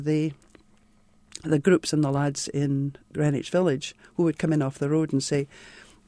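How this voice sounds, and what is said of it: Distinctive non-American regional accent. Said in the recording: “I talked funny... the accent... the accent is an enormous boon”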